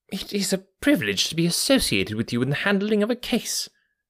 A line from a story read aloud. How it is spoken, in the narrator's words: said the inspector warmly